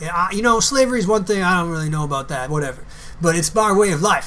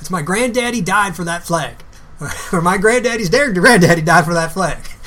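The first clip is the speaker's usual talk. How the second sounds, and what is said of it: Put-on Southern American accent. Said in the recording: “I'm already slipping into my Southern accent”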